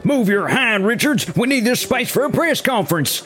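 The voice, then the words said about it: Exaggerated Southern US accent. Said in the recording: “speaks in an exaggerated southern accent.”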